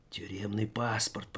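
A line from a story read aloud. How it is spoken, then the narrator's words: Thief whispering. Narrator (Russian): прошептал вор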